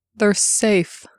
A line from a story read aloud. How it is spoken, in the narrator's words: he said in a muffled voice